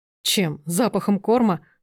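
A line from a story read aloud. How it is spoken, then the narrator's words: Scoffing snort. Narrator (Russian): хмыкнул Сергей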